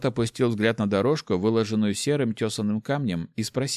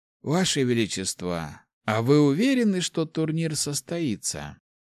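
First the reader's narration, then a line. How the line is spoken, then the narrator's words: Sighing, thoughtful. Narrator (Russian): Правитель вздохнул, задумчиво ответил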